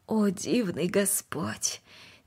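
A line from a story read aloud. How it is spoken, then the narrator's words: Quiet. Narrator (Russian): Тихо произнесла она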